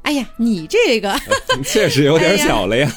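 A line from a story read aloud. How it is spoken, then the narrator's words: Laughing. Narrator (Chinese): 华姑 笑着说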